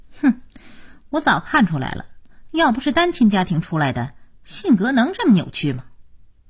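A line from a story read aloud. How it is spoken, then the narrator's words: Cold sneer. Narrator (Chinese): 佳期冷冷一笑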